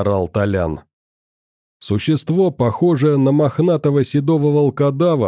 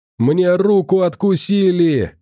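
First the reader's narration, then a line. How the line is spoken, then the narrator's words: Screaming. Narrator (Russian): кричал Толян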